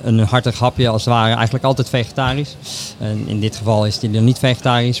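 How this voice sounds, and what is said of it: Slight Utrecht regional Dutch accent. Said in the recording (Dutch): “Ik hoor jouw accent. Jij komt volgens mij ook echt uit de buurt ... ik hoor het accentje een beetje”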